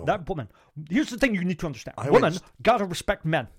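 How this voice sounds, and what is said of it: Imitates another person's voice. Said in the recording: “That's actually quite a good impression.”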